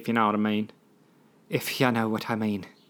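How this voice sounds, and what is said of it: Poor attempt at Irish accent. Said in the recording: “I can't do accents. Why do I keep trying? This was supposed to be an Irish? Supposed to be an Irish accent.”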